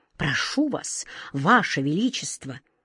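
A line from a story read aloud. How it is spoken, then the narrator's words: Respectful whisper. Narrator (Russian): Главный сборщик улыбок добавил шепотом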